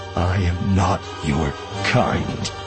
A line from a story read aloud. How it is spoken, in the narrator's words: Voss said, his voice thick